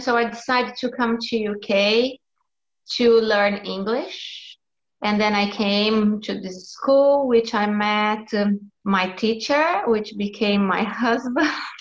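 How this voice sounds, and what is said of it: Non-native accented English. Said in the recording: “I learned English, but not very good, as you can hear. My accent and my mistakes are very, very bad.”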